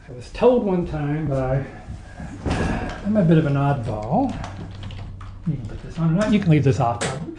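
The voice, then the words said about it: Texas accent. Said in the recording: “Accent's from Texas. This is definitely not a Nazi accent. ... his big Texas style”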